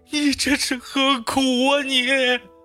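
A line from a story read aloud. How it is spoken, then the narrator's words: Wailing sobs. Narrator (Chinese): 月下仙人哭嚎着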